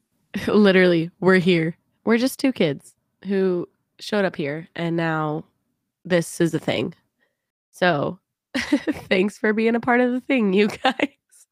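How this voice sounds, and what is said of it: Stuffy, congested nasal voice. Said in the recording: “I sound stuffy there. ... snotty mess”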